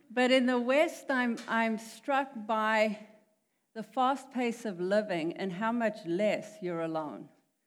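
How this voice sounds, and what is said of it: South African accent. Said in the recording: “I'm from South Africa. That is the weirdo accent.”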